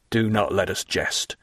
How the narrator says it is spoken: gravely replied Bertuccio

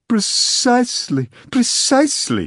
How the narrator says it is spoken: he exclaimed

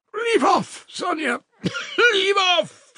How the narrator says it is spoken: she shouted, speaking fast, panting and coughing

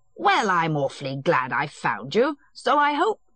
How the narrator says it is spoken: Stepan Arkadyevitch began cheerfully

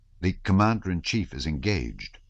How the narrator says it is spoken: repeated Kozlovsky calmly

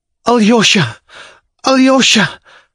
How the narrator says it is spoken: broke from her gasping bosom

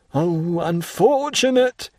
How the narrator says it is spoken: he cried

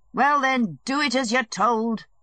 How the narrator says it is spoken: Levin shouted

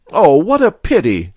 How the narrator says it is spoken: she cried

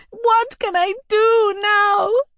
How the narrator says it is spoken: I cried

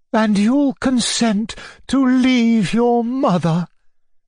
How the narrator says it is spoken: cried Maria Alexandrovna

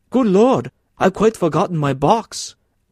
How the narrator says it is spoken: he cried

